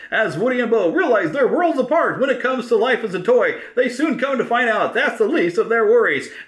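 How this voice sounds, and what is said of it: Imitates a voiceover artist's narration style. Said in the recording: “that is my impersonation of, I cannot think of his name now, but he lives nearby, but he does a lot of voiceover stuff like that... he does that great style like that, which is what I was kind of doing there”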